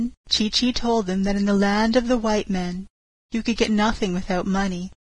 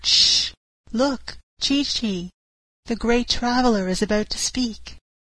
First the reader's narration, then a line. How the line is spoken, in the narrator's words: all the others whispered